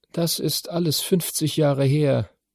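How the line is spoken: Tired. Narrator (German): sagte sie müde

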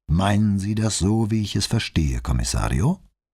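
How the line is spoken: Calm question. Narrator (German): fragte Bonzuan ruhig

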